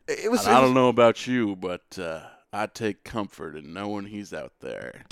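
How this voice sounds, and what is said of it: Sam Elliott impression. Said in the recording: “Dude, that was a good Sam Elliott. Dude, that was a pretty good Sam Elliott impression.”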